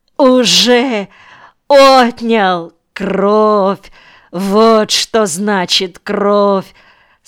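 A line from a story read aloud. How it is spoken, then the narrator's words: Groaning through laughter. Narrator (Russian): Сквозь смех простонал Саяпин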